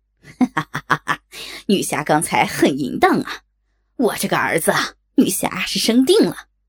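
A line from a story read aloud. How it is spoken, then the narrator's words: Harsh lewd laugh. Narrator (Chinese): 船夫刺耳的淫笑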